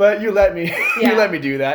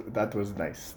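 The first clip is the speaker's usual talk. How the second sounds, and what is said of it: Imitated Brazilian accent. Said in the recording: “with his like Brazilian accent”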